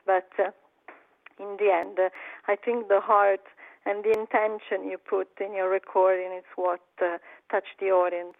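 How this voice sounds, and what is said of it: Non-native accent in English. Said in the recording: “of course, I have my accent.”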